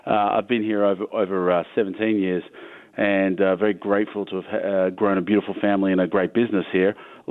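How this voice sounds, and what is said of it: Foreign accent. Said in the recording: “You can hear it's quite odd to have someone with a foreign accent”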